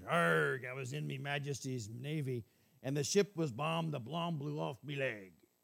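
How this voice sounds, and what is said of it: Put-on pirate accent. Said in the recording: “he looked like a pirate ... we're going to go to the accent, so bear with me”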